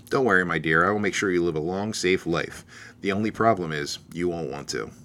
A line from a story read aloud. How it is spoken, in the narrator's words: she muttered softly in his ear